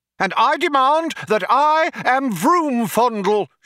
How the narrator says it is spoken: shouted the younger one

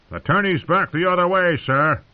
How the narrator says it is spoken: the miller himself had shouted out

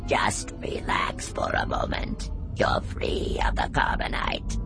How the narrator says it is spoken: murmurs Boosh in his half-mechanical rasping voice

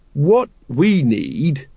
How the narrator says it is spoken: he said slowly

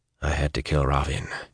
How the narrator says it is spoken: he said quietly

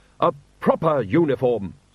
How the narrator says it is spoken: snapped the woman

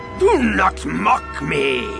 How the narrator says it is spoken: Yeoman Carr roared

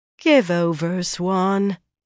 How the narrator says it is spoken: Egwene said wearily

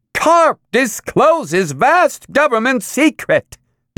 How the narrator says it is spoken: the news machine screeched

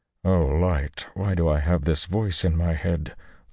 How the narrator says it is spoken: Luce Theron moaned

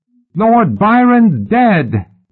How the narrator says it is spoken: the boy yelled

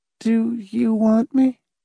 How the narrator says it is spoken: she asked hesitantly

